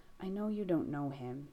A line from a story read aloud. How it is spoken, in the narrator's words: Jess murmurs